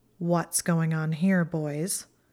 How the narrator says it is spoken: she asked in a deadly tone

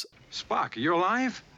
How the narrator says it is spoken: McCoy happily says

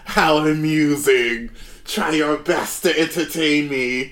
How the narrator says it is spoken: laughing

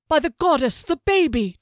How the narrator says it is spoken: Duskellen cried

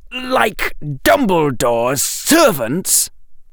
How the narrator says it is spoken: he spat

